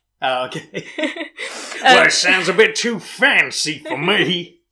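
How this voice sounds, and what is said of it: Nottinghamshire English accent. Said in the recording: “I'm born and bred in Nottinghamshire. You can tell by my accent.”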